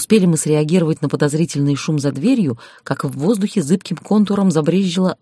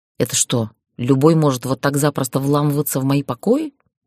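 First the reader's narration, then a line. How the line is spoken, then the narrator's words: Grumbling. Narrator (Russian): проворчала я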